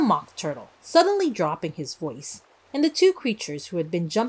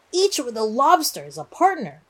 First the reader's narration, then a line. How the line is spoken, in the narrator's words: cried the Gryphon